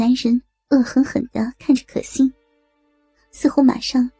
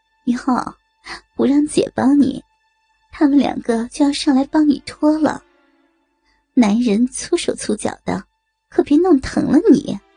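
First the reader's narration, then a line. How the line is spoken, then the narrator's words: Laughing. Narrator (Chinese): 美红笑道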